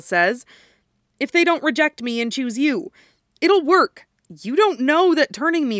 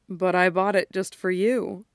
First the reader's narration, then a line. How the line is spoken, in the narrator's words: Peter says, his voice full of gentle amusement